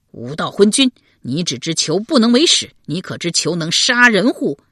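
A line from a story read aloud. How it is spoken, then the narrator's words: Angry. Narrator (Chinese): 宋闵公也怒道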